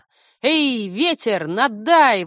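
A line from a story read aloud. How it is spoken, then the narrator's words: Exclaiming. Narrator (Russian): воскликнула я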